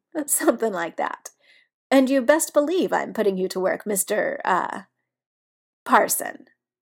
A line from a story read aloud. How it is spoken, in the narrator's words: Biddy laughs and tells him